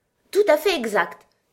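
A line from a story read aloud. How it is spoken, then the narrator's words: Exclaimed. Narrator (French): s'écria la Reine Rouge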